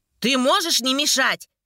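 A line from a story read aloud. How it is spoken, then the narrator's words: Sudden sharp shout. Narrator (Russian): Вдруг резко крикнула Элиан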